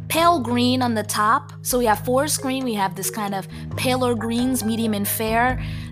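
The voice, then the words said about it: New Jersey accent. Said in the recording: “I say orange in my Jersey accent”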